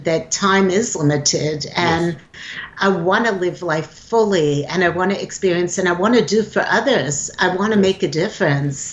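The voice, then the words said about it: East Coast American accent. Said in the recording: “you have kind of a nice accent. It almost sounds like an East Coast accent.”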